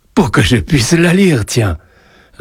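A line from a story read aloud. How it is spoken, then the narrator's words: Amused reply. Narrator (French): répondit Joseph d'un ton amusé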